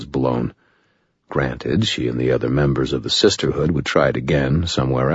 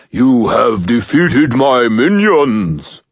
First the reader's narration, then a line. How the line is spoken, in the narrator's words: I boomed in my most overblown voice